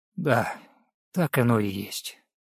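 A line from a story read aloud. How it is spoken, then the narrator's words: Quiet, tired voice. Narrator (Russian): Руслав … негромко, уставшим голосом произнес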